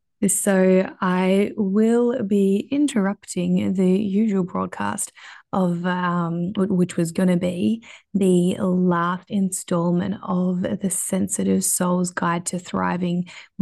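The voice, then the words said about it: Croaky hoarse voice. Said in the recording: “as you can hear, my voice is pretty croaky”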